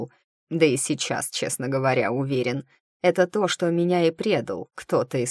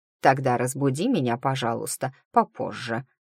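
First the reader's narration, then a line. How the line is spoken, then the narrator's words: Old man asking. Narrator (Russian): попросил старый маг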